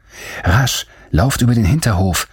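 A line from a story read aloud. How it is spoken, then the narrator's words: Calling out. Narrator (German): rief Agnes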